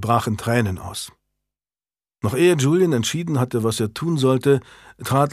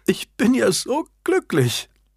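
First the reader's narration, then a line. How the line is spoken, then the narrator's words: Stammering, sobbing. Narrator (German): stammelte Annabel schluchzend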